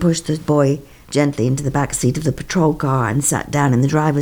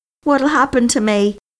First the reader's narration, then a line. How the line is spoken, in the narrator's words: Joey cried